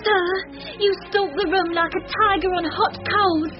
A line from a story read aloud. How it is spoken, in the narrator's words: gasped Minnie, sore affrighted